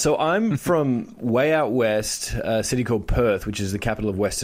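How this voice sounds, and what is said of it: Australian accent. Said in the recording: “they probably can tell by your accent you're an Antipodean Australian”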